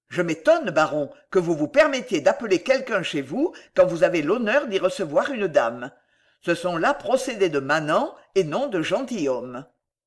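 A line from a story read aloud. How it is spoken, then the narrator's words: Curt, cutting tone. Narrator (French): au baron, d'un ton sec et tranchant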